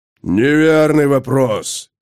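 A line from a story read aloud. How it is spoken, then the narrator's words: Sword barking. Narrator (Russian): рявкнул смертный меч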